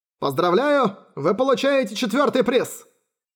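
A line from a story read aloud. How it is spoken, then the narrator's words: Cheerful shout through megaphone. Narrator (Russian): крикнул улыбающийся продавец в мегафон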